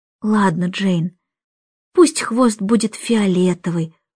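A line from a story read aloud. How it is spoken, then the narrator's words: Whisper. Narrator (Russian): прошептал Майкл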